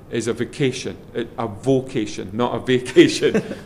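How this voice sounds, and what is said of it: Put-on Scottish accent. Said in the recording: “That was my Scottish accent there.”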